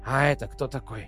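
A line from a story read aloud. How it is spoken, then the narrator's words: Whisper. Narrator (Russian): прошептал Питер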